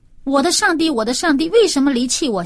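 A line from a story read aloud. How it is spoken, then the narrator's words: Crying out. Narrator (Chinese): 他喊出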